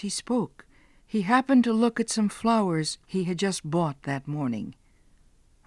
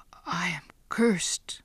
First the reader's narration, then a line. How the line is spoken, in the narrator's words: Giovanni whispered to himself